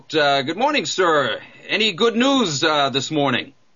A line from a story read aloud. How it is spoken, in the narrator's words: he hollers out